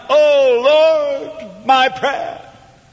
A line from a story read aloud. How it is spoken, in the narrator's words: Hannah, in bitterness of soul because of her barrenness, cried